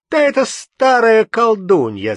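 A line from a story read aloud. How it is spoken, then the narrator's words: Shouting. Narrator (Russian): закричал он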